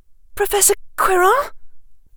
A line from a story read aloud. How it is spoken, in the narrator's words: Hermione managed to say in a voice that squeaked a little